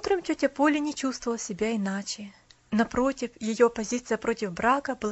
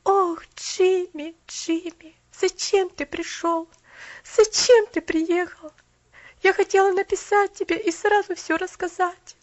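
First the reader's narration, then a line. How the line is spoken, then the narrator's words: Moaning. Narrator (Russian): простонала Поляна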